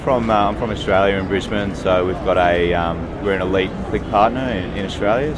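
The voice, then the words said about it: Australian accent. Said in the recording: “Love the accent.”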